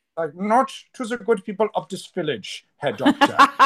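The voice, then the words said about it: Exaggerated comic German accent. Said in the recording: “I call it the young Frankenstein German accent ... because it sounds like this”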